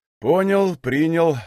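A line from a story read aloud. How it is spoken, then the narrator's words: Sigh, old man. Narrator (Russian): вздохнул старик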